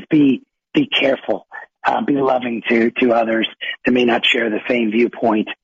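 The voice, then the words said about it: Raspy, hoarse voice. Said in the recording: “I'm apologizing for my raspy voice, and I'll try to get on mute when I cough”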